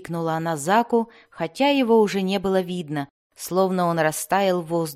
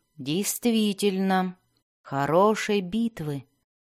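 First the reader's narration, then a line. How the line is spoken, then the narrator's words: Whisper. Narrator (Russian): прошептал он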